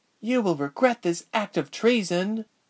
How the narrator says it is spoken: Duri breathed

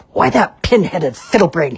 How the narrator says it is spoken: he snarled

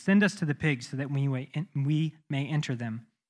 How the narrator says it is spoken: The demons begged Jesus

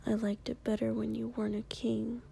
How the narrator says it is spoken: Kiri whispered sadly

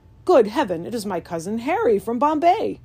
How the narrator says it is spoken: The uncle of my brother's wife, exclaiming

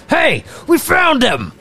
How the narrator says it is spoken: The two thugs yell out

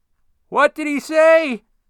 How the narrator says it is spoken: Shirley yelled loudly

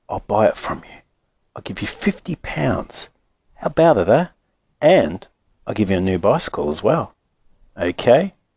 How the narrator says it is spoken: the man whispered

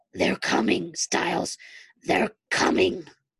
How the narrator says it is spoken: Derek in desperation, growling

